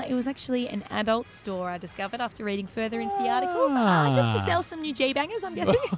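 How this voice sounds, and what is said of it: Usual voice. Nothing is said of it.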